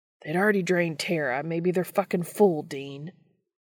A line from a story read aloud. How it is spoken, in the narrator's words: John barks